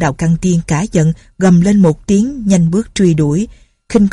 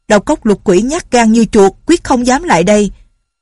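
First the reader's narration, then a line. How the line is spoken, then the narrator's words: Loud. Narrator (Vietnamese): lớn tiếng nói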